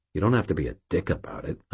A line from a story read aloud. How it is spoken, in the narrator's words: I muttered, very quietly